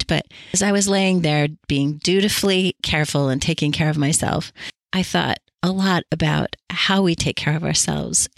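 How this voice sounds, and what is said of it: Sick, strained voice. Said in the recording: “I guess I've had the flu or some kind of nasty virus ... you can hear that in my voice ... That's probably all my voice will be able to handle”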